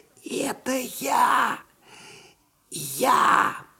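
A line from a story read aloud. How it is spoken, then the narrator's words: Trembling muffled whisper. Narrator (Russian): послышался из-под дивана дрожащий шепот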